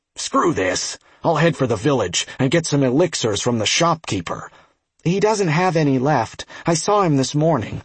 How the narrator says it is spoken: One of the noobs said gruffly

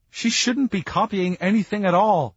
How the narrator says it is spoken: Sabrina said, sobbing

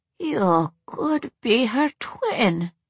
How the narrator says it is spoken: the elderly woman mumbled, still in shock

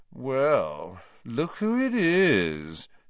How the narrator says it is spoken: said Malfoy, in his usual lazy drawl

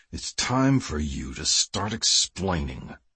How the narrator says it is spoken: Kiefer growled

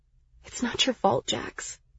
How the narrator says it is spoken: I said softly

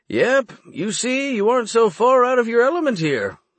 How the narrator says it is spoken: he said merrily

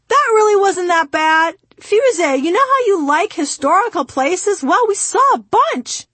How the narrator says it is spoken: my father turned around and shouted from 4 rows ahead of me

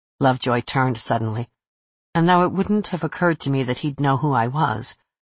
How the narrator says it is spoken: he said in a flat, odd voice

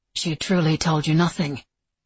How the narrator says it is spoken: Nicholas said, his voice flat

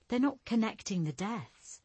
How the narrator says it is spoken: Julia said, sighing

